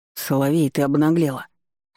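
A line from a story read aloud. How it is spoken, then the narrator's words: Exhale. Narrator (Russian): выдохнул он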